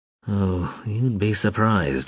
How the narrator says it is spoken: he muttered

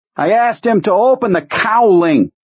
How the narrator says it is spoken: Brodsky shouted into Owen's ear

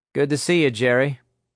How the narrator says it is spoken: Nick said evenly

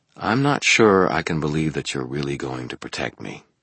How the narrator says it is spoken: quietly said

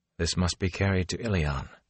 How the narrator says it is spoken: said softly

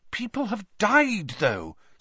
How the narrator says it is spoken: said Hermione in a worried voice

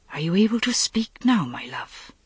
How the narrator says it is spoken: he whispered

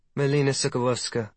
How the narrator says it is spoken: the blonde woman says with a charming accent

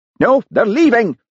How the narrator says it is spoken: he shouted

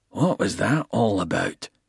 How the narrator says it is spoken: he asked in a low voice so that Shoemaker wouldn't overhear

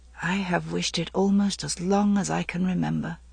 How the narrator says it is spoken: She said in a low voice

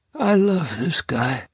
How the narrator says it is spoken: Uncle Henry says in his rusty voice

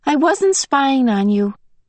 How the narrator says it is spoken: he said quickly

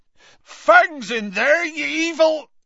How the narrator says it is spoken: Hagrid bellowed

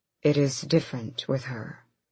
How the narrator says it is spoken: Gabrielle said softly

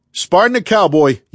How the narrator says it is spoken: yelled Duffy

